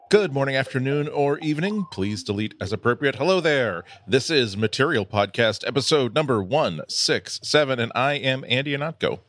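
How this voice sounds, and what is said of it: Rich, lush baritone radio voice. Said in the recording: “You just have such a great radio voice. ... I do have a rich, lush baritone”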